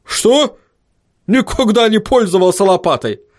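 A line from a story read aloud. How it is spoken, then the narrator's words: Angry gnome barking. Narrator (Russian): рявкнул рассерженный гном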